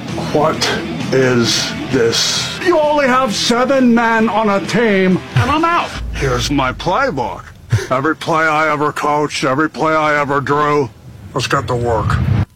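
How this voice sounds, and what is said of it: Nicolas Cage impersonating John Madden. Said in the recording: “someone doing an impression of Nicolas Cage doing an impression of John Madden ... That's terrible”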